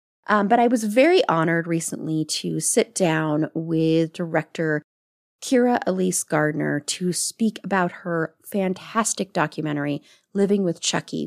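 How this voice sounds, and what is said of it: Voice affected by a cold. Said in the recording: “excuse my voice, I do have a little bit of a cold that I'm getting over”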